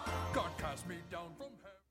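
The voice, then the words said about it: Satan character voice. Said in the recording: “Trey does the voice of Satan”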